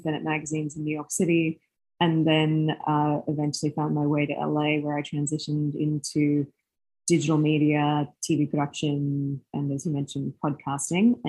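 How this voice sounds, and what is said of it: Slight Australian accent. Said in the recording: “Originally from Australia, I've still got the trace of an accent.”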